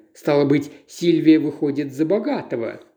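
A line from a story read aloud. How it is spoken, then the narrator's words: Mocking conclusion. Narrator (Russian): насмешливо заключил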